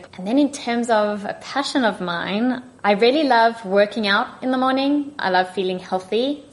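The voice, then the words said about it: South African accent. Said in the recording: “my accent is from South Africa”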